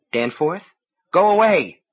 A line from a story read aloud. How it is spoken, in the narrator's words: His voice was agitated, but she could not tell if the reason was excitement or fear